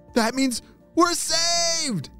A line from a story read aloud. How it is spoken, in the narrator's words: shouted Neil